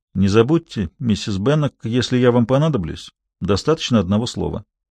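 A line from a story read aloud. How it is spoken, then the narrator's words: Calm quiet voice. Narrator (Russian): Только у него было спокойное лицо, он негромко сказал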